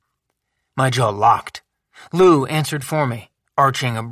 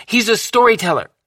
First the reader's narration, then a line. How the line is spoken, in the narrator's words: Lou said quickly, loudly